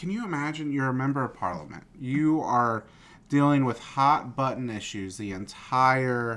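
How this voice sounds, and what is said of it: Usual voice. Nothing is said of it.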